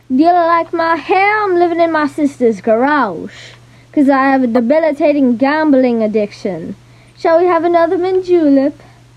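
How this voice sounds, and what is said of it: Character voice with southern accent. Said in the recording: “there was a southern accent and a mint julep involved ... he's got a character”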